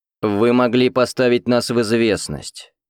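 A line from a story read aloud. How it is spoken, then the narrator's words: Stern. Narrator (Russian): строго ответил Андрей Геннадьевич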